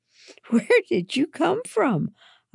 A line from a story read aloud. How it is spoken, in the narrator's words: I gasped